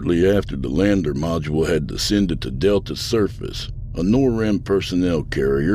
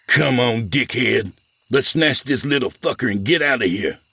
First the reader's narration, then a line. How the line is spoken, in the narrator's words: snarled